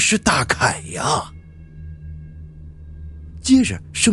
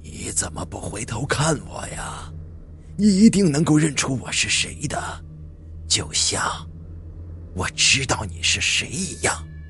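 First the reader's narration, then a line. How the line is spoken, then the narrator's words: Old, hoarse voice. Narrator (Chinese): 一个苍老、嘶哑的声音，他在说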